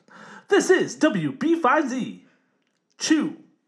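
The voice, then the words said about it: Put-on radio announcer voice. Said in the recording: “Radio voice.”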